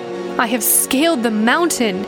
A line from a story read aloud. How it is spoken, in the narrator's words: yelled over the wailing wind